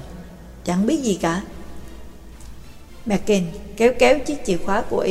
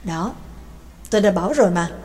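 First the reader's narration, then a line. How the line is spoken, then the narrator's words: Muttering with a smile. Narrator (Vietnamese): Mạc Kinh mỉm cười ... lẩm bẩm nói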